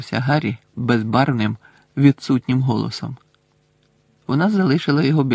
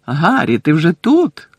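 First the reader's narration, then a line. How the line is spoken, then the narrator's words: Joyful exclamation. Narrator (Ukrainian): радісно вигукнув Бекмен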